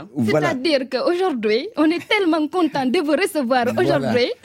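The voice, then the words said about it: Sing-song Senegalese accent. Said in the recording (French): “L'accent sénégalais est tellement chantant. ... vous savez le faire aussi”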